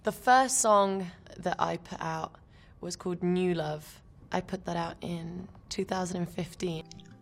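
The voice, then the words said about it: British accent, soft T. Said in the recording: “This is why it's called British accent. You know, this is the way British people say it ... she's not emphasizing put out”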